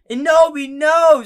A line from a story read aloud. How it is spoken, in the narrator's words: screamed Draco